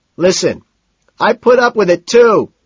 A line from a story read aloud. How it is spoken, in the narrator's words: Price shouts